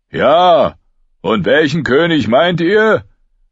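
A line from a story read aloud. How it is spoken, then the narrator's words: Old giant calling back. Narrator (German): rief der alte Reisen zurück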